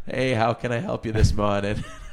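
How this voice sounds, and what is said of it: Strong Boston accent. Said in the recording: “some dude with a wicked Boston accent was like”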